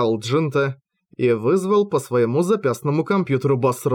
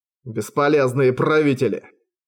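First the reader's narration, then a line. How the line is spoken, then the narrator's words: Growl. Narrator (Russian): прорычал Майдин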